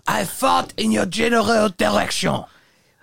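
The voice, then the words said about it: Put-on comic French accent. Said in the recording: “impersonating a French person from the castle ... this stupid accent”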